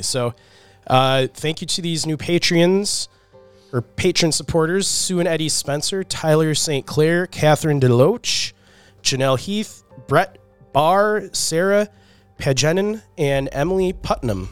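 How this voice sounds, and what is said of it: Congested, slightly off voice. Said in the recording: “my voice sounds a little weird. I'm recovering from a cold ... I'm a little congested ... my voice is a little off today”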